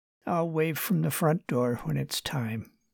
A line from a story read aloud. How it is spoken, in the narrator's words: she said quietly